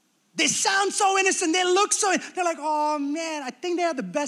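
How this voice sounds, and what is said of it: Usual voice. Nothing is said of it.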